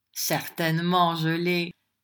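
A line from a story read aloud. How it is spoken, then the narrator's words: Sneering retort. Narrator (French): répliqua le beau-père en envoyant le même ricanement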